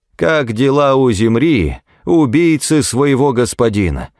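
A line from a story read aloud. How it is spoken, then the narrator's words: Shouted. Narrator (Russian): прокричала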